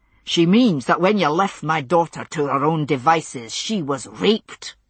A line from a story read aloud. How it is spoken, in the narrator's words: he said roughly